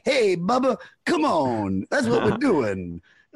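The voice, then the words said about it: Cheesy DJ-style voice. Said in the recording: “he would talk like this ... He sounds like a DJ”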